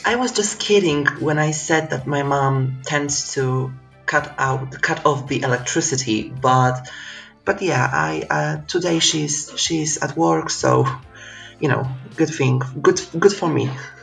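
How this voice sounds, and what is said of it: Polish accent. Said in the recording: “the accent, where are you from? ... I'm from Poland”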